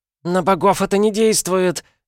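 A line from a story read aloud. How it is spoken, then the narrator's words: Shrieking. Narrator (Russian): визжала кицуна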